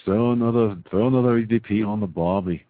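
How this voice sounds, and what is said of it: Put-on Australian accent. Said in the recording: “I'm going to do my Australian voice.”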